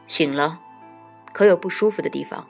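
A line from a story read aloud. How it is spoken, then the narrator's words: Low quiet question. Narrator (Chinese): 低声问他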